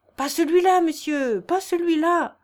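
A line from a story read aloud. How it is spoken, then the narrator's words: Child shouting. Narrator (French): cria l'enfant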